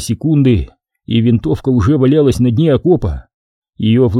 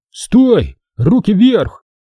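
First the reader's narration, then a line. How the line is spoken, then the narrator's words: Shouting. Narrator (Russian): Лученков закричал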